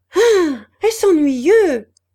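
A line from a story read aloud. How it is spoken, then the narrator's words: Shout. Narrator (French): cria-t-elle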